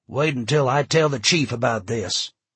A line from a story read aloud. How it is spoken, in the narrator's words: Gus said coldly